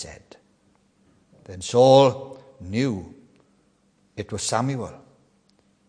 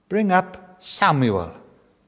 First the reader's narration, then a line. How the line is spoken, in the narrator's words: he said